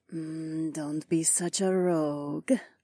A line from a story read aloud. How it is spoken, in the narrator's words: purred, only inches away from my mouth